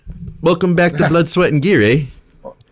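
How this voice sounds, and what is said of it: Poor put-on Canadian accent. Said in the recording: “Canadian accent, like a boot? ... That wasn't good.”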